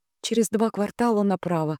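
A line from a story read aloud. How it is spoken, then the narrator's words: Quiet prompt. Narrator (Russian): негромко подсказала Диана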